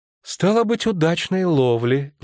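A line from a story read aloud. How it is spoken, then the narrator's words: Sighing. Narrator (Russian): вздохнула Кандверамурса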